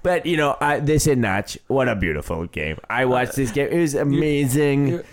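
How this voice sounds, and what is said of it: Imitates another person's voice. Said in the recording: “your goddamned Trump impression”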